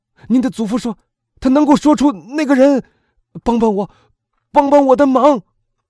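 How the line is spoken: Shouting. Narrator (Chinese): 弗兰兹喊道

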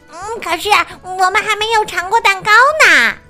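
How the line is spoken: Loud shout. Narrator (Chinese): 小鸭大叫

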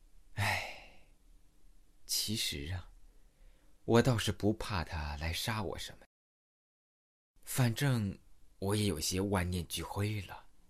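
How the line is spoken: Sorrowful sigh, single mother. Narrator (Chinese): 单身母亲悲哀的叹了一口气

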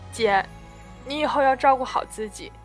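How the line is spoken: Sobbing, choked voice. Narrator (Chinese): 安琪在一旁抽抽搭搭，哽咽着说

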